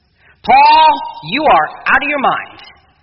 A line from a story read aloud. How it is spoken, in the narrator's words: Festus said in a loud voice